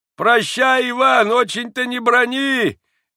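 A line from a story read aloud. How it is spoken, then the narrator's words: Father's farewell shout. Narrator (Russian): крикнул в последний раз отец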